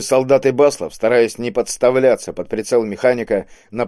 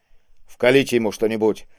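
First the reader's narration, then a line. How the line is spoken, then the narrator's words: Irritated command. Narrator (Russian): раздраженно приказал Киск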